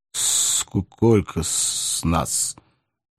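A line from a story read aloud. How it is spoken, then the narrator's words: Hoarse stammering. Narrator (Russian): Невольно запинаясь, просипел Левушка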